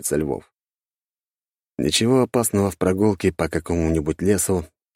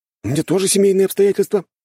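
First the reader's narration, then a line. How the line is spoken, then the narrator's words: Cheerful. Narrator (Russian): радостно кивает Ильин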